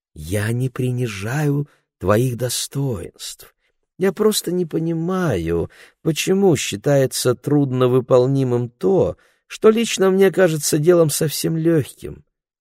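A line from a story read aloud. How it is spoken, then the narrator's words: Sickly sweet voice. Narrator (Russian): сказал Ларри своим самым противным медовым голосом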